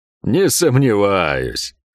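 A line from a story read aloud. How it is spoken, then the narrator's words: Chuckling. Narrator (Russian): хохотнул Пень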